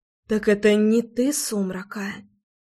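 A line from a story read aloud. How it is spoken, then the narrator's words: Quiet whisper. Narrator (Russian): Тихий шепот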